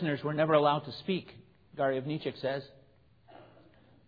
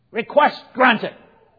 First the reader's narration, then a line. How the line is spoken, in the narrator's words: he barks